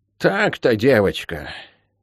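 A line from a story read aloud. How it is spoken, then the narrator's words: Sighing older woman. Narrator (Russian): вздохнула старшая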